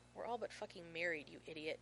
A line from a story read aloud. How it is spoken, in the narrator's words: John hisses